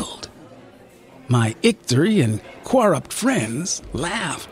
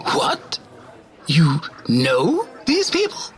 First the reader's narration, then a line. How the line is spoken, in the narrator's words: spluttered Alfie from the boombox